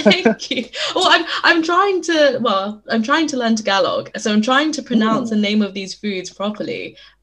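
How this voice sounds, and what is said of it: British accent. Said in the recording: “my British accent ... I love your accent”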